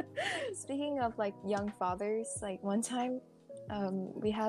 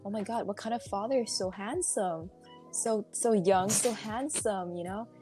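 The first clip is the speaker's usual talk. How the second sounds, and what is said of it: Imitated accent of an older relative. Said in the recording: “She's speaking that kind of accent”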